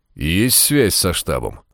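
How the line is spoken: Tired question. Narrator (Russian): устало спросил Фогель

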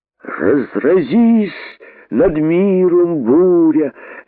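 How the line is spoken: Sudden shout. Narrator (Russian): неожиданно крикнул поэт

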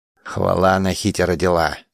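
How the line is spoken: Displeased grumble. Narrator (Russian): недовольно буркнула Хуракушта

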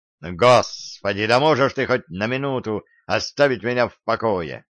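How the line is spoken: Barking, snapping. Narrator (Russian): рявкнул я

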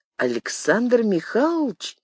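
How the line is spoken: Uncertain drawn-out question. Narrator (Russian): неуверенно протянул Юрка

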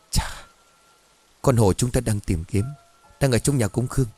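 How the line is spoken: Quiet cautious. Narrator (Vietnamese): Cường lúc này mới dám nói khẽ với cha

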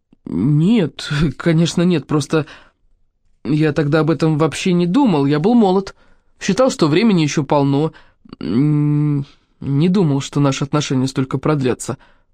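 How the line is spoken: Mumbled. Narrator (Russian): промямлил Амитабх

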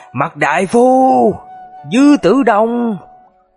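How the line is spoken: Angry, bitter hatred. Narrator (Vietnamese): với điệu bộ giận dữ và thống hận

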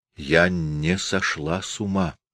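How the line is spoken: Slow, clear whisper. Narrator (Russian): медленно и четко прошептала она

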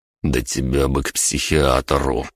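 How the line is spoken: Muttering. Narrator (Russian): пробормотал я

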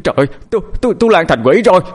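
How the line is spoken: Terrified scream. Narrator (Vietnamese): Tiếng thét của cậu Điền

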